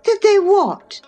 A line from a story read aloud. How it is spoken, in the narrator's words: cried Catherine